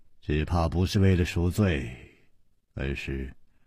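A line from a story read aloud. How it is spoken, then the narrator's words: Sighing. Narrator (Chinese): 楚留香叹了一口气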